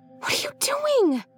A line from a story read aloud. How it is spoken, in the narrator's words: Lacey whispered harshly